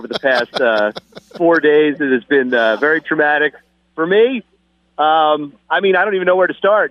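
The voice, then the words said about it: Upbeat, happy-sounding voice. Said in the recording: “I sound really happy right now”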